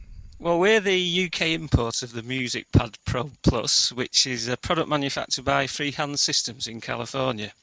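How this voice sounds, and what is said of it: Northern English accent. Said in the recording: “we're based in Ashton-under-Lyne, so hence the northern accent”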